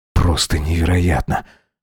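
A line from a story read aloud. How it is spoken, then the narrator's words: Hissing. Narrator (Russian): прошипел Макс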